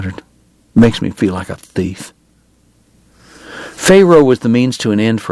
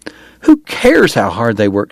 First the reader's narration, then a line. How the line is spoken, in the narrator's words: she cried